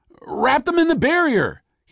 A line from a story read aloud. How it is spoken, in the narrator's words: he shouted to Walter